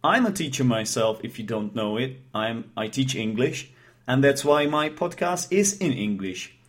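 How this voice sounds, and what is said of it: Non-native English accent. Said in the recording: “I am not a native speaker of English, I think you can detect it in my accent. Actually, I hope that it's not easily detectable”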